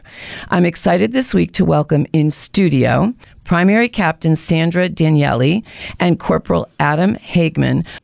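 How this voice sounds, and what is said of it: Voice not at full strength. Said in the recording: “my voice is not at 100% this week”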